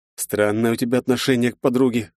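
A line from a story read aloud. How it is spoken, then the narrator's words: Snorting, skeptical. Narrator (Russian): хмыкнул я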